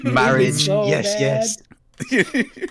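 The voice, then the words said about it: Skaven creature character voice. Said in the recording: “do a better Skaven impression? ... in the Skaven voice”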